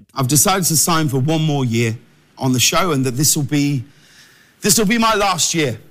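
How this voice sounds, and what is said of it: English accent, crisp and lively. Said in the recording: “God, that accent is just crazy... everyone needs an English friend in their life... It's just more exciting the way they talk. It just pops and crackles”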